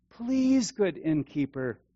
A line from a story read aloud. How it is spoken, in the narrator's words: Joseph pleaded